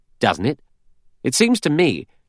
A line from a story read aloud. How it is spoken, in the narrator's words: He said sharply